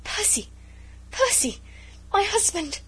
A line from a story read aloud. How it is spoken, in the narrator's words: she gasped, faint with the fullness of her joy